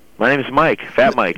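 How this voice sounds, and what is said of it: Put-on silly character voice. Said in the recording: “doing this voice as well ... That's the worst impression”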